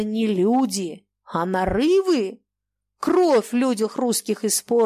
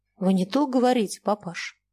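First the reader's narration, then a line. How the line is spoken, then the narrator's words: Gentle. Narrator (Russian): мягко сказала Любовь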